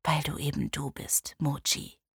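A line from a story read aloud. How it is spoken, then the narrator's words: Whispered. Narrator (German): flüsterte er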